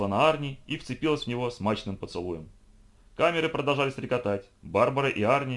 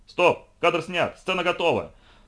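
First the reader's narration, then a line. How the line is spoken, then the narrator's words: Delighted booming through megaphone. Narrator (Russian): прогремел в мегафон восхищенный режиссер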